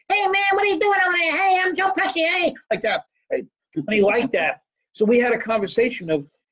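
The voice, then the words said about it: Joe Pesci impression. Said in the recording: “I used to do an impression of Joe Pesci.”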